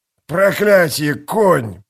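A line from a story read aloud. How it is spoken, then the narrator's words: Hoarse wheeze. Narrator (Russian): прохрипел он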